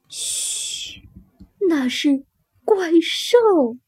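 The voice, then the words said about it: Hushed whisper. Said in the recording (Chinese): “兔妈妈小声说”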